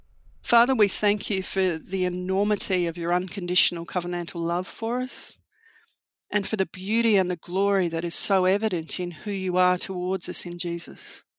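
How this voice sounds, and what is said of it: Australian accent. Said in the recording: “We like Aussie accents around here. So take that Aussie accent”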